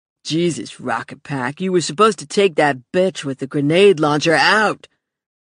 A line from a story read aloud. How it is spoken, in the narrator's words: Dan snarled into his mic